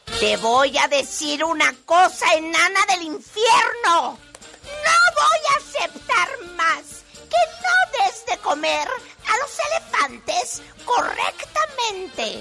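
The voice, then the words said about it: Scolding circus villain character voice. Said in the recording (Spanish): “Actriz de doblaje ... es la villana. Es una villana ... Que te encuentras en un circo. Y tienes que regañar a...”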